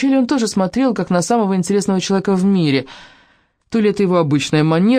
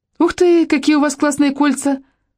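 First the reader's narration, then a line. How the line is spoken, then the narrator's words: Shrill squeal. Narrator (Russian): Пронзительно взвизгнула Челли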